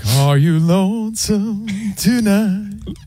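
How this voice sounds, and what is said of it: Sung imitation of an impersonator. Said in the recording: “an Elvis impersonator ... he sang”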